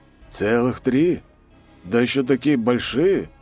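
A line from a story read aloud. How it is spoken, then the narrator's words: Eldest's surprised mutter. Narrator (Russian): удивленно пробормотал старший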